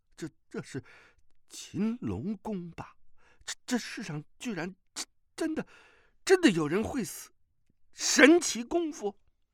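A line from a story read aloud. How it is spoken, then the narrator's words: Stunned, trembling voice. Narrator (Chinese): 风波鳄当时便怔住了，颤声道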